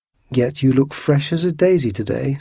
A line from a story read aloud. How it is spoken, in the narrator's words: said Athos